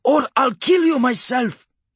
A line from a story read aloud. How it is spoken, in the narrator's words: Hanlon snarled